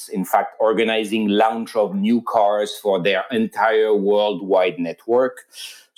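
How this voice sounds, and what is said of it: French accent. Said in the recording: “I'm a French citizen, so you probably heard with the accent.”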